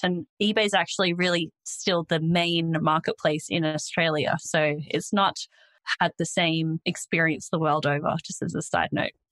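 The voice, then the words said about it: Australian accent. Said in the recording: “I'm Australian, if you couldn't already tell from my accent”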